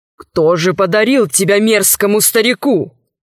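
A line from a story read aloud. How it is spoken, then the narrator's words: Menacing question. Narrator (Russian): грозно спросил Саладин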